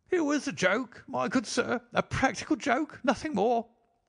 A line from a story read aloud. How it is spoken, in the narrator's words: he whined incessantly